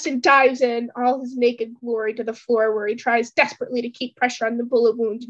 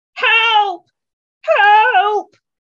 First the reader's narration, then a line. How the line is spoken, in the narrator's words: yells to no avail